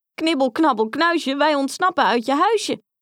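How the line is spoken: Calling out. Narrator (Dutch): riep Grietje

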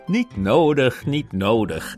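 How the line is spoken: Laughing dog. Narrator (Dutch): zei de collie lachend

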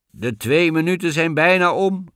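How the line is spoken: Impatient call from below. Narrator (Dutch): riep Blauwbaard ongeduldig van beneden

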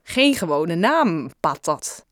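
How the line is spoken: Plain. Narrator (Dutch): zei Lauren

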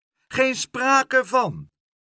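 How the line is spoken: Shrieked. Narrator (Dutch): gilde Leentje

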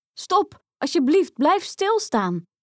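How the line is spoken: Woman calling out. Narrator (Dutch): riep ze

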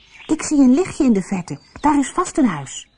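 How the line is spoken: Calling out. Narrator (Dutch): riep tegen zijn broertjes

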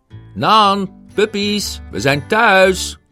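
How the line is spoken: Calling out. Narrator (Dutch): riep Roger

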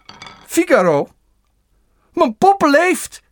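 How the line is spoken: Surprised exclamation. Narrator (Dutch): riep verbaasd

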